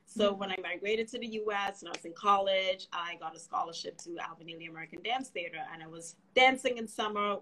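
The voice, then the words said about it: Trinidadian accent. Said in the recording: “a bit of an accent, originally from Trinidad and Tobago”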